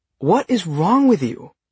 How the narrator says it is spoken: She exclaimed

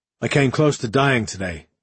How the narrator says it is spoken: he told her, his tone flat, reflective

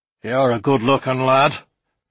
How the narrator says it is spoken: growled a voice from behind me

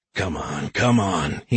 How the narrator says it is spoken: he murmured

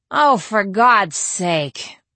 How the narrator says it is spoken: I moaned

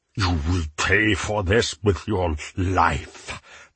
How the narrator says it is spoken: Menot hissed

